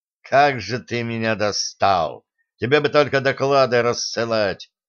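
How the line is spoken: Displeased grumbling. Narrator (Russian): недовольно проворчал Рейнгард

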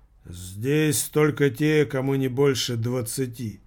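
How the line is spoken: Gloomy. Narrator (Russian): мрачно проговорил

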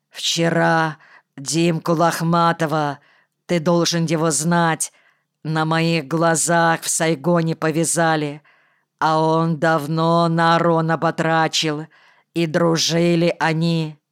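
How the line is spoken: Gloomy creaky voice. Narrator (Russian): Хмуро проскрипел

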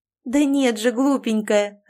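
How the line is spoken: Laughing. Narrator (Russian): рассмеялась подруга

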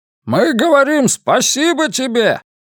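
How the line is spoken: Roaring, in chorus. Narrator (Russian): проревели они

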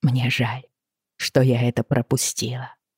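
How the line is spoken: Quiet, hushed. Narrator (Russian): сказала тихо, чтобы не разбудить ребенка

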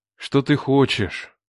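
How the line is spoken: Sigh. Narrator (Russian): вздохнул я

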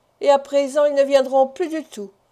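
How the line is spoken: Sighing. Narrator (French): ajouta Jonas en soupirant

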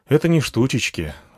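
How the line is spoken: Sighing. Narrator (Russian): вздохнул я

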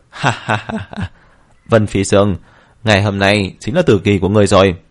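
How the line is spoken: Loud laughter. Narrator (Vietnamese): Tông Hoài cười lớn

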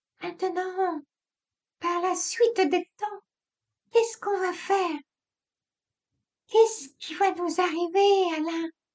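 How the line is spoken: Intolerant moaning. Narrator (French): Il fit gémir, débordant d'intolérance

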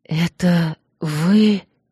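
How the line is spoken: Shocked whisper. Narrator (Russian): потрясенно прошептала

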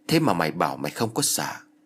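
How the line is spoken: Laughing. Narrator (Vietnamese): ông thầy Tả cười rồi nói

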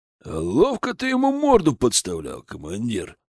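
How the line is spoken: Amused grunt. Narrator (Russian): хмыкнул Бат

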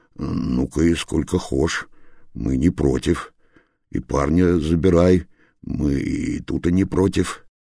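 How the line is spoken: Muttered by killer. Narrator (Russian): Убийца медленно-медленно попятился назад, пробормотал

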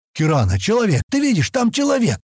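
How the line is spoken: Hoarse excited exclamation. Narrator (Russian): Хриплым от волнения голосом воскликнул Стэн

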